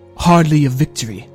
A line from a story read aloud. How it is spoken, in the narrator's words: snapped the king